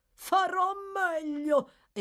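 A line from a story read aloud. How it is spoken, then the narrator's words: Exclamation. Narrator (Italian): esclamò Noah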